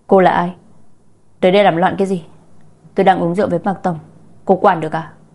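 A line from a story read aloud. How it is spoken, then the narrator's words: Very angry woman. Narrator (Vietnamese): Người phụ nữ rất tức giận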